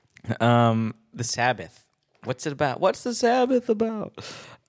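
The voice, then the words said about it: Bad imitation of another person's voice. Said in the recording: “That was a really bad impression. That was not a good Seinfeld.”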